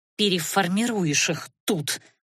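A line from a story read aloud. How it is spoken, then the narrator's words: Through gritted teeth. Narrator (Russian): процедила Розалия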